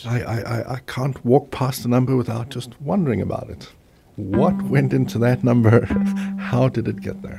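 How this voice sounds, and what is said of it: South African accent. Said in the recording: “What kind of accent was that? ... South African, yes.”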